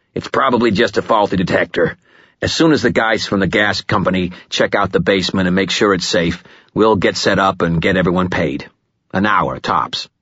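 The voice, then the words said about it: Bluff, heavy, cheerful Chicago-accented voice. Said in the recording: “in a bluff, heavy, cheerful voice marked with the harder, shorter vowels of a Chicago accent”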